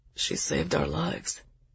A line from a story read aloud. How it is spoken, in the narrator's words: Zell said softly